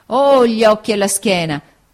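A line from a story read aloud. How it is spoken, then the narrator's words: Sad exclamation. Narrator (Italian): esclamò tristamente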